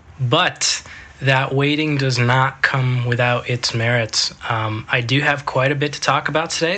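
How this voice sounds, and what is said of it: Sick, off-sounding voice. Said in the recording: “I have been sick... my voice is a little out of it... the way my voice sounds”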